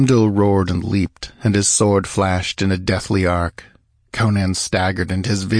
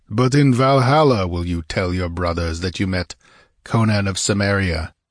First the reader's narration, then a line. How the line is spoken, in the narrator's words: growled the black-haired warrior